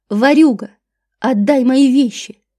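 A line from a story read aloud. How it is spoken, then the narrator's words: Furious roar. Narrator (Russian): взревела она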